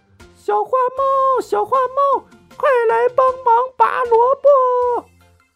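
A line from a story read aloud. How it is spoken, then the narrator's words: Dog calling out. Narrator (Chinese): 小狗喊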